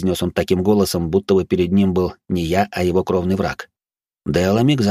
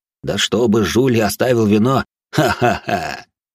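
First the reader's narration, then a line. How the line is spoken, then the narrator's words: Ringing laughter. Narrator (Russian): Он продолжил заливисто смеяться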